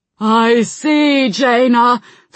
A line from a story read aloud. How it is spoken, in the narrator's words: Thrall shouted back